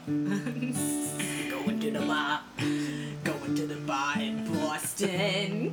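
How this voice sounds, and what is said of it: Attempted Boston accent. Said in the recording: “That's not exactly the accent thing ... My Boston accent is down.”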